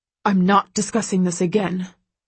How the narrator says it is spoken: he snaps at Carrick

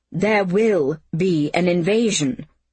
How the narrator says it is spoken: she said in a tightly clipped tone

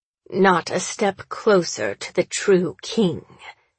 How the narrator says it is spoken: she growls

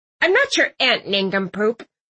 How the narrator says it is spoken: Aunt Tilly snapped

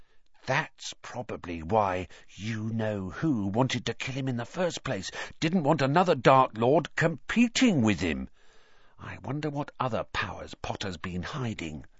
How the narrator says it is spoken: He dropped his voice until it was barely more than a whisper, and said

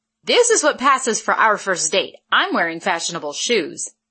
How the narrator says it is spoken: she retorted sharply

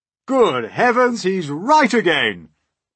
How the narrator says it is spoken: cried the old green grasshopper

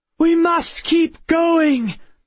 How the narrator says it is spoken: Miss Peregrine shouted

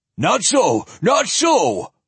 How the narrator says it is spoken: Ulsum half-shrieked

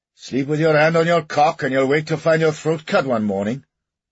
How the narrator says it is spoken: they jeered back at Longdon

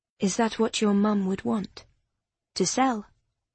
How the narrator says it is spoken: Her voice was low and quiet

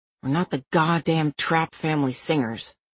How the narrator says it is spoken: Cal said under his breath

